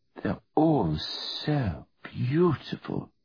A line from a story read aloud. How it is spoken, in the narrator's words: purred Virginia